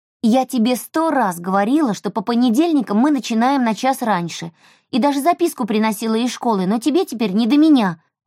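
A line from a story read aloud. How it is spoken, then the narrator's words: Snapping, resentful. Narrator (Russian): огрызнулась Эльса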